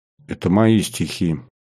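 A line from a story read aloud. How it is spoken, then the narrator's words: Quiet. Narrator (Russian): тихо произнес Кариков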